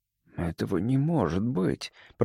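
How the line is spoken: Muttered. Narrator (Russian): пробормотал я

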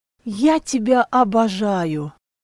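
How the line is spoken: Breathed into ear. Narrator (Russian): выдохнула ему на ухо

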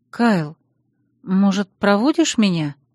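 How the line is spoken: Timid hopeful question. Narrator (Russian): робко спросила я, с надеждой

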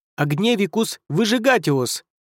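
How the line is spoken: Shout. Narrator (Russian): выкрикнул он

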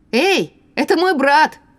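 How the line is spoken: Warning shout. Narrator (Russian): предупреждающе крикнула я

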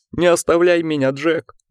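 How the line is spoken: Sobbing. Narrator (Russian): рыдал волк

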